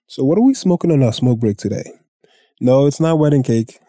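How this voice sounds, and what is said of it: Congested, sick-sounding voice. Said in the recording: “my voice is a little under the weather. I got a sinus infection ... one of those where you can't breathe”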